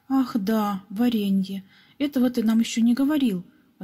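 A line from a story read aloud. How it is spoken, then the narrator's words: Exclamation. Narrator (Russian): воскликнул Пепс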